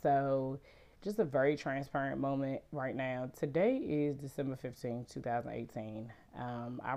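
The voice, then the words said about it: Sick, congested voice. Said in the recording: “Excuse my voice. I am suffering from allergies, a cold or something ... my voice goes in and out”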